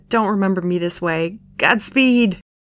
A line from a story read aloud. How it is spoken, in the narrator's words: Candace winced a laugh and was already halfway at the door when she said